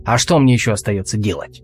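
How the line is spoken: Snapping retort. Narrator (Russian): огрызнулся Алвис

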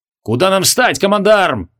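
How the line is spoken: Barked from inside vehicle. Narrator (Russian): гаркнул майор Жандидорос из тяжелого геродерма

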